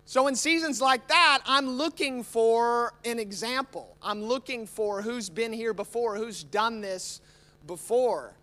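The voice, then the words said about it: American accent. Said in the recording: “Don't let the American accent fool you.”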